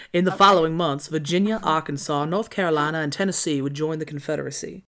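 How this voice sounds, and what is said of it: Put-on Southern US accent. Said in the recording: “try a Southern accent ... I'm gonna lean into it ... Okay, Frank Underwood.”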